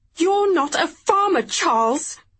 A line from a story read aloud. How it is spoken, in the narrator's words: she spat, before bursting into tears